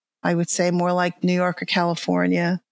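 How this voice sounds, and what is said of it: New York Long Island accent. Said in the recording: “a, a, Long Island accent I can detect, isn't it? ... You think I would have gotten rid of this New York accent.”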